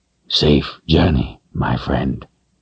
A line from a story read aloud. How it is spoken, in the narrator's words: he whispered